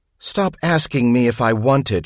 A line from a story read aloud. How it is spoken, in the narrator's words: snaps, then sighs